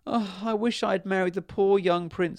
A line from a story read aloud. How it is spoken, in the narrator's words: sobbed the princess